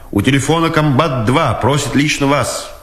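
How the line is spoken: Shouted from afar. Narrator (Russian): издали крикнул Дудкин

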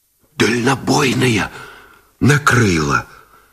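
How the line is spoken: Strained whisper. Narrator (Russian): шепотом выдавил связист Гусев

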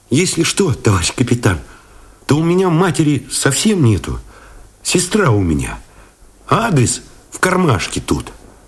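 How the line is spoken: Guilty, boyish, near sob. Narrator (Russian): вздохнул, вроде всхлипнул, по-мальчишески виноват, сказал

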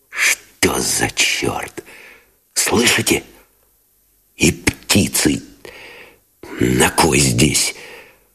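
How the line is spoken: Whispered cursing. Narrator (Russian): Шепотом выругался Новиков

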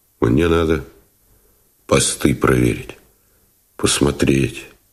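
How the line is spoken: Quiet, unfamiliar voice. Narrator (Russian): тихо, незнакомым голосом сказал он

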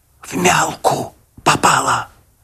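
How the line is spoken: Secretive whisper. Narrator (Russian): Он стих и шепотом, как будто по секрету, сказал мне

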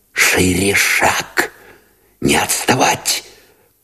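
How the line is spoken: Urgent whisper. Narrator (Russian): поторопил шепотом Новиков

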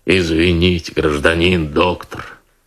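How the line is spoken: Pleasant soft bass. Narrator (Russian): приятным мягким басом отозвалась фигура

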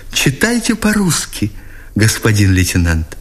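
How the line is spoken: Glad, guilty whisper. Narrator (Russian): воскликнула, обрадованной вместе виновато попросила шепотом

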